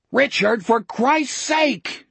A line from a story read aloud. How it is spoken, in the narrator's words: Jack roared